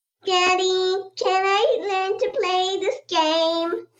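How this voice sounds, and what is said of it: Cute childlike voice. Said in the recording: “in a very cute voice”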